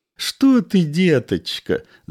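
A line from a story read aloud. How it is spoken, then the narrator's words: Mother laughing. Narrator (Russian): засмеялась мать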